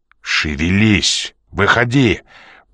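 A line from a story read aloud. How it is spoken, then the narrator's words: Growled. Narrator (Russian): прорычал Ян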